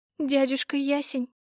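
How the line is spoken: Sobbing. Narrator (Russian): всхлипнула

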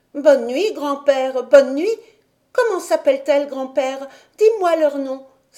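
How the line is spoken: Exclaimed while running. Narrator (French): s'écria-t-elle en courant

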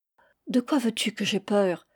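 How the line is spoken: Reassuring murmur. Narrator (French): murmurai-je pour le rassurer

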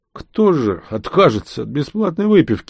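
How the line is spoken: Muffled, strange foreign accent. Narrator (Russian): глухо ответил незнакомец со странным акцентом, словно не из здешних мест

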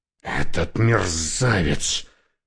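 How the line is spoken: Hissed. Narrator (Russian): прошипел

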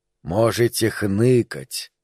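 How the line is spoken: Sudden drop to whisper. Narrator (Russian): внезапно перешел на шепот Фауст

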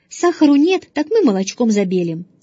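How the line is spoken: Cheerful voice. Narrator (Russian): сказал отец все еще веселым голосом

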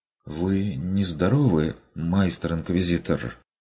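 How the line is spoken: Timid question. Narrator (Russian): Робко поинтересовалась Амалия

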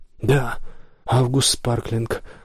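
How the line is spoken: Sad sigh. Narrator (Russian): грустно вздохнул Гилберт

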